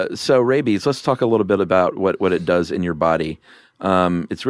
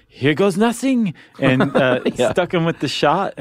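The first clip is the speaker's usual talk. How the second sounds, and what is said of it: Put-on cartoonish French accent. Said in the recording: “That's good, Louis Pasteur. ... Chuck Jones version of Napoleon ... That's how I learned to do a French accent.”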